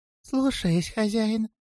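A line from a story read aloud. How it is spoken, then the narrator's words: Clear squeak. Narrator (Russian): отчетливо пропищал Сливикин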